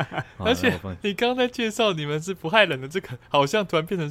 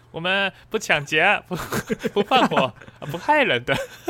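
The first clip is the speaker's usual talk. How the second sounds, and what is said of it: Salesman-like pitching tone. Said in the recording (Chinese): “像你朋友在跟你推销的时候的那个口音”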